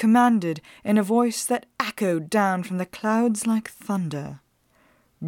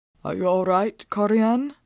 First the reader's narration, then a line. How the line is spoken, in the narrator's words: He asked hoarsely